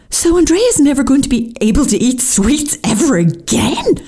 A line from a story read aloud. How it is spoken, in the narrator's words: I exclaimed in horror